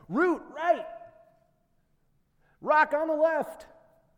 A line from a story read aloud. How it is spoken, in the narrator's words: We would shout out to each other